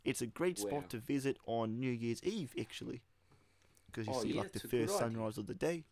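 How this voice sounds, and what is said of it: Put-on New Zealand accent. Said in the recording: “let's get rid of these accents ... If you're offended by our accent for our New Zealand listeners”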